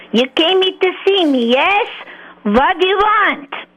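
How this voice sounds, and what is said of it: Put-on Russian accent. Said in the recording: “this new Russian accent I came up with”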